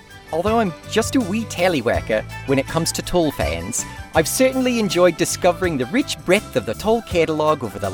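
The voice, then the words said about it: Put-on New Zealand accent. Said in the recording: “I'm assuming I should do a New Zealand accent for this.”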